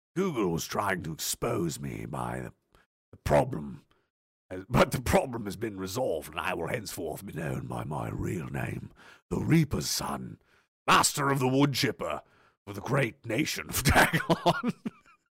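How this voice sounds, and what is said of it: Evil villain voice. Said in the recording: “in evil villain voice, evil villain voice.”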